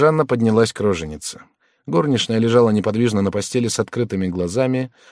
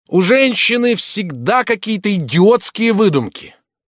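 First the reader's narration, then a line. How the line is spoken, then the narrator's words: Furious shouting. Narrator (Russian): разъяренный, закричал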